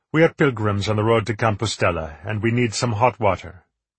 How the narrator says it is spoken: Petrus said

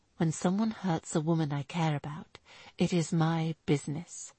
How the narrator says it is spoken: he told her quietly

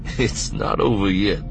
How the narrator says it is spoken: Lando said, chuckling

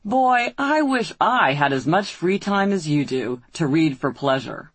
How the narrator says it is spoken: my housemate's boyfriend said to me, in a patronizing tone

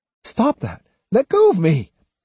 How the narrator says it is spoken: cried Otsu

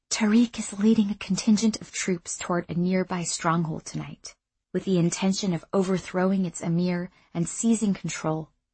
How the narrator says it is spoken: Irsa said quietly

